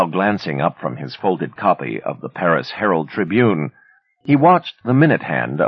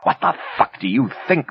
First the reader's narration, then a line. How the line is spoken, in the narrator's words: Ben cried, his voice almost drowned out by the hiss of the incinerator